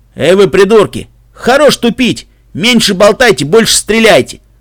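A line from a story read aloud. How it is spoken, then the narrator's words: Barked, earth stallion driver. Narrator (Russian): рявкнул водитель земной жеребец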